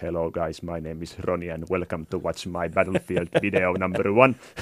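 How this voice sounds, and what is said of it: English with heavy Finnish accent. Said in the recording (Finnish): “karsee aksenttia”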